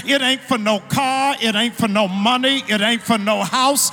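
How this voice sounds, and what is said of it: Shouting, loud preaching delivery. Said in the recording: “I'm shouting”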